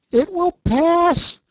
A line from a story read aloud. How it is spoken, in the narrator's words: she cried